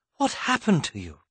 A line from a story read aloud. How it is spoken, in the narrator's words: gasped Queen Genevieve